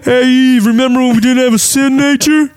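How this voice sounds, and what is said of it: Put-on character voice. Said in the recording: “that was my impression of Eve”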